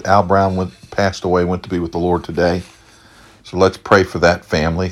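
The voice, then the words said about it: Slightly raspy voice. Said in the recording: “My throat's a little bit raspy tonight.”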